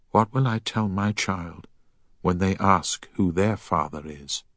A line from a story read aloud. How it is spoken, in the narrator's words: Emma quietly added